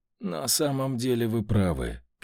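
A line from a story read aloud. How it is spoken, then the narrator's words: Sighing. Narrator (Russian): комендант вздохнул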